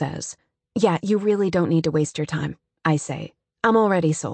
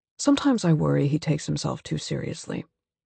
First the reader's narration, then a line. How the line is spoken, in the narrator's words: Alex says flatly